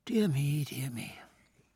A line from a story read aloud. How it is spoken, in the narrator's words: said with a sigh